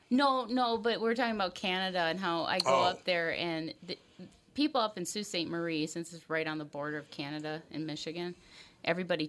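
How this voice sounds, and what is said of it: Minnesota accent. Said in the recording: “he's always making fun of my Minnesota accent ... well, you do have a Minnesota accent. ... Yes, she does.”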